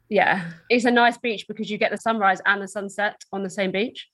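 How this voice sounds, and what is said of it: English Essex accent. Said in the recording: “you've got an accent ... I'm from Essex in the UK, which is just outside London”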